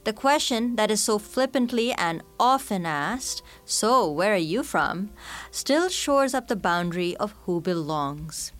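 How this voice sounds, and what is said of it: Mixed Canadian, British and Indian accent. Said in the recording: “I sound, quote-unquote, too white when I go to India. And in Canada, my accent, which is supposedly a mishmash of Canadian, British, and Indian, marks me as, quote-unquote, a foreigner”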